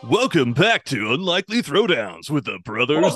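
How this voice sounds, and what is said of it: Loud shock jock announcer voice. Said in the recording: “does his shock jock voice ... game show host-like”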